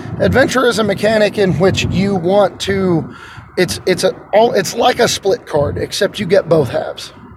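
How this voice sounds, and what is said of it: Slightly hoarse voice. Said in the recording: “my voice is a little bit hoarse from work”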